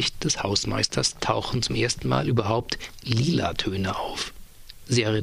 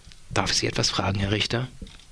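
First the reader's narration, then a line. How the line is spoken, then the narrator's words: Calm, friendly interjection. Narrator (German): mischt sich Wehling auf einmal ruhig und freundlich ein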